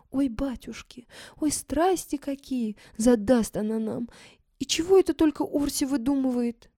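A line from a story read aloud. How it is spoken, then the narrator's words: Frightened whisper. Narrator (Russian): Фима испуганно шепча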